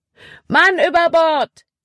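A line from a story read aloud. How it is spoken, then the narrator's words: Shouted. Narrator (German): rief Caleb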